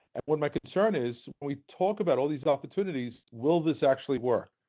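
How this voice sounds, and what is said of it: Brooklyn accent. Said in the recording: “As you know from my accent, I'm from Brooklyn”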